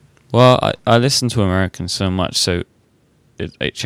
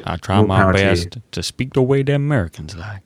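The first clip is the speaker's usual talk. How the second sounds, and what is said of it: Put-on American accent. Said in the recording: “Is that your American accent? ... It was one of them.”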